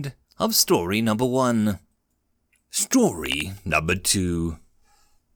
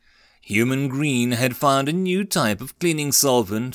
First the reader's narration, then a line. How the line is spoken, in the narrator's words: 45 Trolls replied